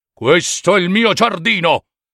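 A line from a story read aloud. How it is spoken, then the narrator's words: Giant's terrible shouting. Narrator (Italian): gigante dalle sue grida terribili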